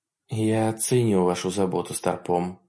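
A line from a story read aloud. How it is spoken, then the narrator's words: Quiet. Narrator (Russian): тихо сказала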